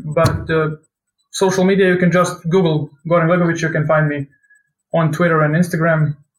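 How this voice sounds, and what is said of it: Speaks English with an accent. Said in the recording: “I apologize for my accent”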